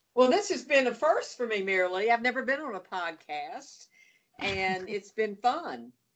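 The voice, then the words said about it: Southern American accent. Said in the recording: “your southern accent”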